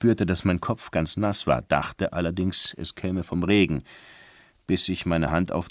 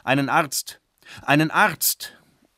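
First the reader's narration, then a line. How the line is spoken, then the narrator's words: Old man crying repeatedly. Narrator (German): ein alter Mann rief pausenlos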